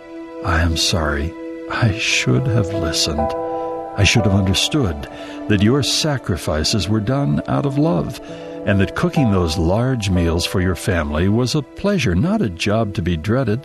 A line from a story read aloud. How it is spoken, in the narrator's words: whispered to her mother